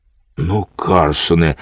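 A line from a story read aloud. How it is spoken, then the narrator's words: Frightened child speaking. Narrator (Ukrainian): злякано сказав малий, побачивши, як розгнівалася панна Цап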